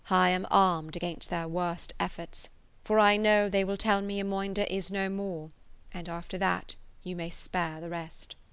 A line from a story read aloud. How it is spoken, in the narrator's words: Orinoco replied with a deep sigh, and a languishing voice